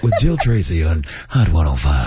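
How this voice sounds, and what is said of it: Radio announcer voice. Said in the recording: “This is my radio voice right here.”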